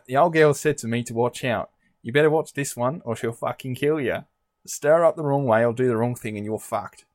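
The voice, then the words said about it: Put-on Australian accent. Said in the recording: “do the quote again, but do it in an Australian accent”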